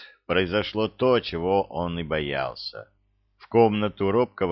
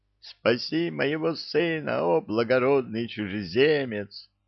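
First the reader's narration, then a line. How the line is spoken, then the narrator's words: Woman sobbing. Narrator (Russian): донесся сквозь рыдания голос женщины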